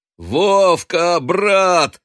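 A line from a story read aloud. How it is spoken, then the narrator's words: Joyful shout. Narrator (Russian): радостно закричал Матвей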